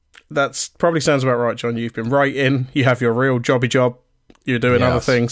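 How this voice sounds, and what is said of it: Slightly hoarse, failing voice. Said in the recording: “losing my voice a little bit ... I'm getting a little bit losing my voice”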